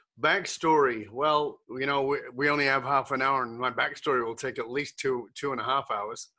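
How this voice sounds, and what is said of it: Muddled mixed British-based accent. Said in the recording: “this muddled accent ... I was born in the UK ... ended up living in Australia ... moved to Canada”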